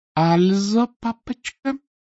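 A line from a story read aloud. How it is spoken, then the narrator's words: Singsong drawl. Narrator (Russian): певуче протянула грабительница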